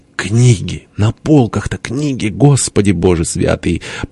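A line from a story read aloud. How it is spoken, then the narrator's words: Trembling quiet whimper. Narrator (Russian): задрожал, тихо заскулил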